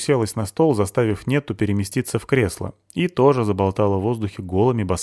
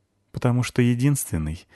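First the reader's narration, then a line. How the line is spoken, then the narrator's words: Sad, smiling. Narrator (Russian): грустно улыбнулась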